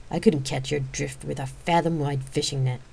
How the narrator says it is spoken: Zena snapped edgily

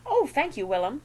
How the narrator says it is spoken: Daisy had squealed

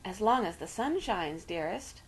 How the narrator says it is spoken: murmured Aunt Celia

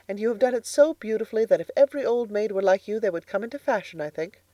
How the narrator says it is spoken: laughed Anne

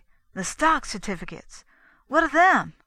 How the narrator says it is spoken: he asked eagerly

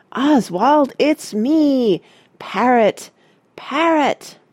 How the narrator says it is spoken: Then he shouted

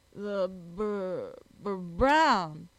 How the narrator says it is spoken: spluttered Jack

